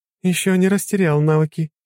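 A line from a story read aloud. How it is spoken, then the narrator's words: Giggling. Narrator (Russian): хихикала Лора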